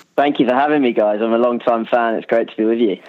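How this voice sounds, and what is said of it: English accent, pleasant voice. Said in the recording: “an English accent ... it's a good voice, isn't it? It's really going to offset our harsh nasal tones.”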